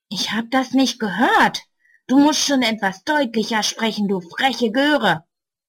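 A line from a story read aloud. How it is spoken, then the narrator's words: Angry hiss. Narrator (German): Böse zischt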